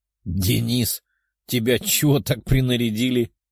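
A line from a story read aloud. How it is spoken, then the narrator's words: Chuckling. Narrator (Russian): хохотнул он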